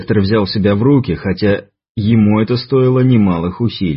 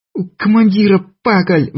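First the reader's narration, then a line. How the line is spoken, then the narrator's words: Shrill squeal. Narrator (Russian): взвизгнула Шурочка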